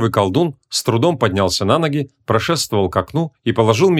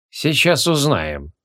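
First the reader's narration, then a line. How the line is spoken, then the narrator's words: Gruff mutter. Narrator (Russian): буркнул Бестельгласуд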